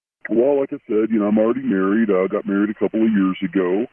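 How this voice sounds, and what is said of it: Electronically disguised voice. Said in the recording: “the voice changer is on”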